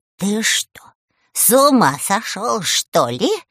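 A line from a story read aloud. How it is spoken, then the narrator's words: Angry hiss. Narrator (Russian): зашипел на него Баба-Яга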